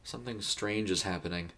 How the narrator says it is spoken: he mumbled

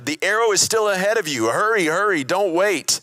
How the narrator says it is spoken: Jonathan shouted

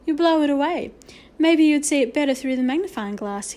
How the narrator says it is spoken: he added kindly

